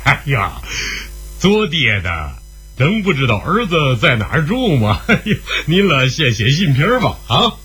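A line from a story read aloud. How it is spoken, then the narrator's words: Old man, laughing loudly. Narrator (Chinese): 老人一笑，大声地说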